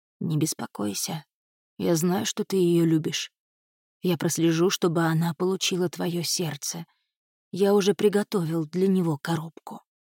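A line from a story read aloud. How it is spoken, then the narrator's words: Killer's whisper. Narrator (Russian): убийца прошептал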